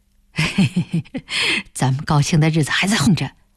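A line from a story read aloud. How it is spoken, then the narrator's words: Laughing. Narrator (Chinese): 开田笑了起来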